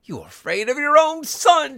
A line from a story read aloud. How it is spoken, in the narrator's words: she cried, struggling